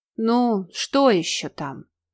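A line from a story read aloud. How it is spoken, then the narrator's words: Lazy drawl. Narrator (Russian): лениво протянул тот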